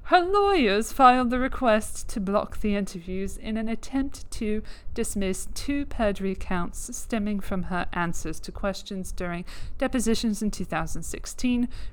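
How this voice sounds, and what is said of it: Put-on English accent. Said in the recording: “I'm using an English accent because this is The Independent.”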